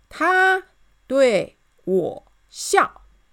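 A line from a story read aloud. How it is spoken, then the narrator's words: Slow, word by word. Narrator (Chinese): 士兵一个字一个字慢慢的说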